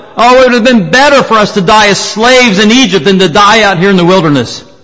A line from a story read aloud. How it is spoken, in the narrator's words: Time after time they shouted